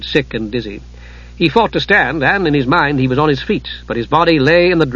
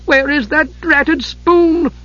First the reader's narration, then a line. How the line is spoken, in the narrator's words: he cried in frustration